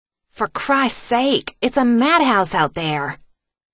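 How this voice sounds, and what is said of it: Thick southern accent, complaining. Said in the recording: “Harper complained in her thick southern accent.”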